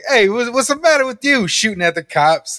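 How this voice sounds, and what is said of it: Put-on New York accent. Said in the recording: “a guy with like a New York accent”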